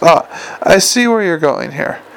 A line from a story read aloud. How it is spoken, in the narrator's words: he said, with a little laugh that cracked a bit around the edges